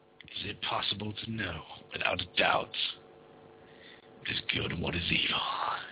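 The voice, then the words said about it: Dramatic movie trailer voice. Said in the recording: “That was my trailer voice. ... That was your movie trailer voice.”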